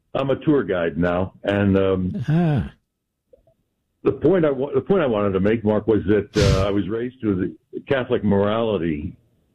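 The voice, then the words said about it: Polished radio announcer voice. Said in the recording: “that's a radio voice, America. you have a radio voice.”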